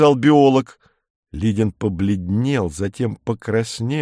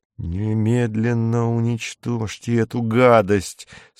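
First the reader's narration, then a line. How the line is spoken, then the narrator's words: Through gritted teeth. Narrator (Russian): сказал он сквозь зубы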